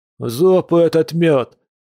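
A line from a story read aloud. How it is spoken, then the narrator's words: Howl. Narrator (Russian): взвыл Кир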